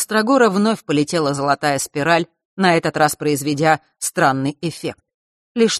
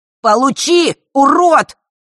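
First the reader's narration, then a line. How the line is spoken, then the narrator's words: Shrill shout. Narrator (Russian): пронзительно выкрикнул Ярис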